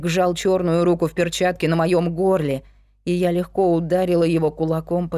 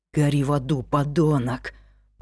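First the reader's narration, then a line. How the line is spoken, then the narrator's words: Whispered. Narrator (Russian): прошептал Люк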